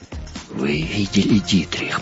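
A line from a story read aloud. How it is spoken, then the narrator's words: Sobbing mutter. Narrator (Russian): пробормотал он, всхлипывая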